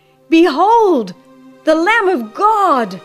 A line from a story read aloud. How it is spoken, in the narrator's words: as he cried